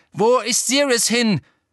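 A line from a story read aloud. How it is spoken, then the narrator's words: Called after the elf. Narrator (German): rief Harry dem Elf nach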